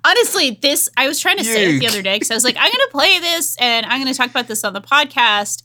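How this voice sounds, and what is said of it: Rhode Island accent. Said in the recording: “such a challenge for me to say with my accent ... R's are difficult for a woman from Rhode”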